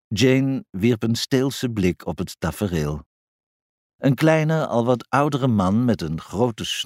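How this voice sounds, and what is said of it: Usual voice. Nothing is said of it.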